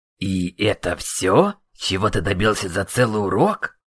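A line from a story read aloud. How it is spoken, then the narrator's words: Annoyed question. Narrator (Russian): С досадой спросил магистр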